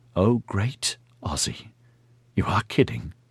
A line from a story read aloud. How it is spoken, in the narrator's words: whispered